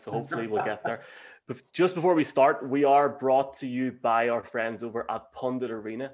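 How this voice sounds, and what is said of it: Strong regional accent. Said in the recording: “This is like being in an episode of Boondock Saints with these accents ... I apologize for my accent because my wife can't understand me half the time”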